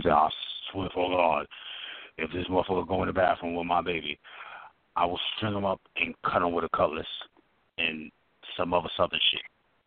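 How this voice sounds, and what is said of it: Imitates another person's voice. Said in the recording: “That was a Shakir impression.”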